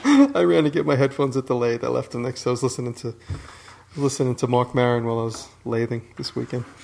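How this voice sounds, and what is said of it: Out of breath, panting speech. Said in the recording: “That's why he was out of breath.”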